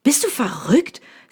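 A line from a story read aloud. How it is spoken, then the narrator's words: Angry. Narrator (German): sagt dieser wütend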